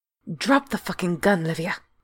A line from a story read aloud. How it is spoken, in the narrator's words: Yosef snarled, all too aware of the trigger-happy man holding a pistol to his head